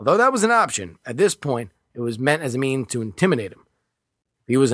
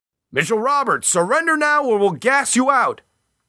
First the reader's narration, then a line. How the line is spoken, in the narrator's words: He called out into the attic